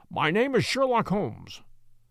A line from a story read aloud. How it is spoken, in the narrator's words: said my companion